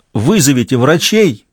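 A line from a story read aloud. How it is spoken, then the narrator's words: Shout. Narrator (Russian): крикнул им Ратушинский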